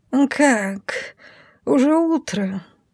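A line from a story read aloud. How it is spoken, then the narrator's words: Sleepy purr. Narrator (Russian): сонно мурлычет он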